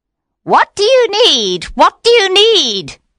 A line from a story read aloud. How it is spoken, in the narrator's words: cried